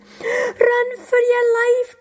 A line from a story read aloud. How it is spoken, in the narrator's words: cried the porters